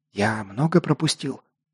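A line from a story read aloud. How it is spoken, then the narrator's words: Whispered question. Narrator (Russian): шепотом спросил я Локка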